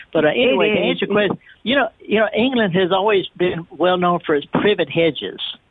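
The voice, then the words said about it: Northern English Lancashire accent. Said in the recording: “I'm up in Lancashire. It's a whole different accent up here.”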